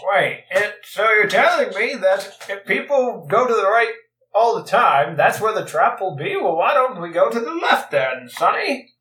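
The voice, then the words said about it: Old man character voice. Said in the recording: “you sound like an old man who's avoiding hazard.”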